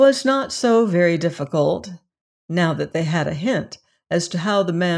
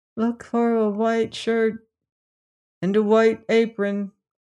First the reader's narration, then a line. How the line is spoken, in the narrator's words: said the head which had been put together, speaking in a rather faint voice